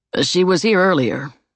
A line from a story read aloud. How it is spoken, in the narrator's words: Emmett said